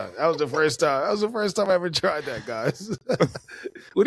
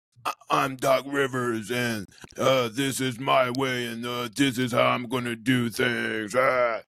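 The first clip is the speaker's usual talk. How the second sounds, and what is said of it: Imitates another person's voice, croaky. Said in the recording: “you like that impersonation? ... that's not a bad impression. ... A good Doc Rivers, you basically just have to act like you swallowed a frog.”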